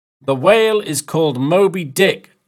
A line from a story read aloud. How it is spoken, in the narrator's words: Stubb shouted